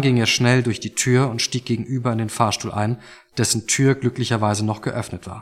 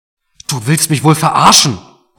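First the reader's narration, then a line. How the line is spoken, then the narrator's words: Bellowing through a splitting headache. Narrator (German): brüllte Mark jetzt, obwohl ihm dabei fast der Kopf explodierte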